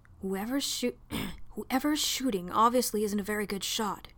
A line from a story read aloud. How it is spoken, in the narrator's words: John whispered urgently to Amarissa